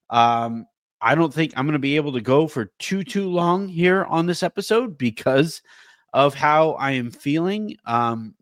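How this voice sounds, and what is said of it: Congested, stuffy-nosed voice. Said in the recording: “my allergies just absolutely are killing me. I don't know if you guys can hear it in my voice, but it is just brutal. I cannot breathe through my nose. I am currently breathing like Nikola Jokic through the mouth.”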